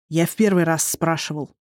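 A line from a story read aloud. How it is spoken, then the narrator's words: Through gritted teeth. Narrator (Russian): процедил сквозь зубы Эндан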